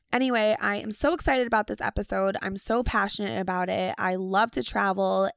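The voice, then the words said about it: Hoarse, raspy sick voice. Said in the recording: “I am so sick. That is why my voice sounds like this ... I sound like an old man that's been smoking for the last 100 years”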